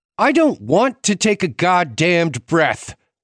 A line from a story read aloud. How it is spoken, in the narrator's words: Hannah snapped